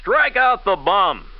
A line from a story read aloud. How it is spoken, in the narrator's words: A thoughtless voice cried